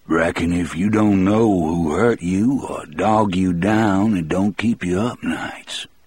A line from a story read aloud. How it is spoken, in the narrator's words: John Coffey said in his almost southern voice